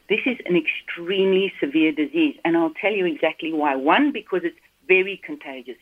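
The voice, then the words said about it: Slight South African accent. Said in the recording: “I've got a bit of an accent. ... you may pick up, I've got one. But I trained in South Africa”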